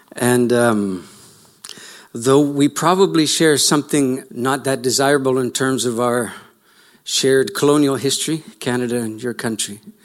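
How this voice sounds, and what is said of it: Foreign accent, from overseas. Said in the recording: “you can tell by my accent that I'm from slightly offshore”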